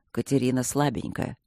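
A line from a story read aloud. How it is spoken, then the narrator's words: Calm objection. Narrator (Russian): спокойно возразил Свидерский ему в спину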